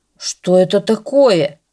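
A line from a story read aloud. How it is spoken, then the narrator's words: Grumbling. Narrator (Russian): забурчал он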